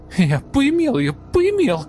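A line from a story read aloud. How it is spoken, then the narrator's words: Frantic squealing. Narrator (Russian): Визжал он в ответ, как резанный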